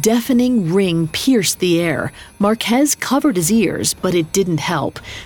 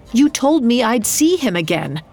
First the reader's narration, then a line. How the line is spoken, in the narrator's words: cried